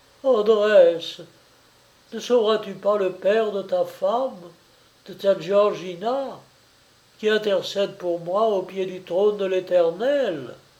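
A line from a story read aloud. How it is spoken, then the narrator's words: Desperate cry. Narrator (French): Trabacchio, dans l'excès de sa désolation, s'écria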